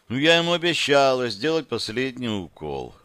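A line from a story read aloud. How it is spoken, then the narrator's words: Sighing. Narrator (Russian): вздохнула Яна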